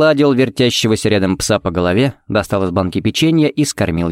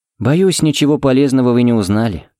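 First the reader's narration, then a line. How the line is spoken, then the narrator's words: Sighing. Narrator (Russian): вздохнул Фернандес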